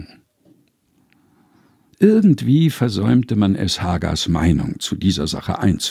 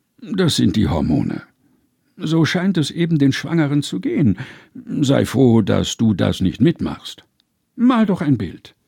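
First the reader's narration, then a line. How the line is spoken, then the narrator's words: Grumbling. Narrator (German): brummte Abraham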